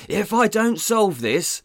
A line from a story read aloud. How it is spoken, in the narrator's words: Sizemore shouted